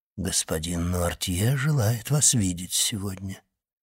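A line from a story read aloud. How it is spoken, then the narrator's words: Quiet. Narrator (Russian): тихо сказал он ей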